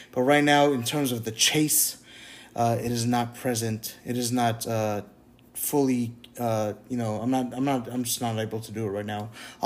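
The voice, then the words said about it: Stuttering, hesitant speech searching for words. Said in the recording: “I'm stuttering a lot. I'm hunting for words a lot”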